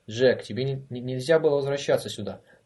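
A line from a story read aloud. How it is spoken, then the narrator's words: Exclaiming. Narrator (Russian): воскликнул Голович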